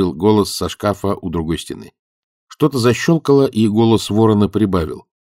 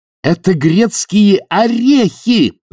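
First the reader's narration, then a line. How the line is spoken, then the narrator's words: Yelling. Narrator (Russian): заорала Сьюзен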